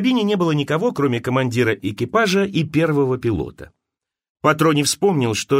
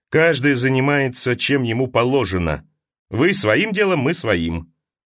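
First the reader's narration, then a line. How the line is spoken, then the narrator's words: Dry, curt. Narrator (Russian): Командир сказал сухо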